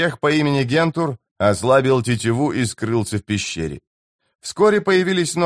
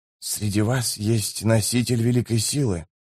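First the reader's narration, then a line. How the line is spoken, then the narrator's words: Whisper. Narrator (Russian): прошептал он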